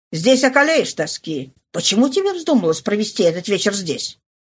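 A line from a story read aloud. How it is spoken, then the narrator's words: Sharp interruption. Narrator (Russian): Фошри резко прервал его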